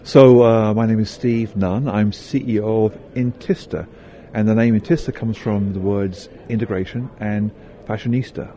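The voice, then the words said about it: British English accent. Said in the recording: “I learned British English first... right now I'm listening to you, and it feels like I'm listening to my teacher... you British”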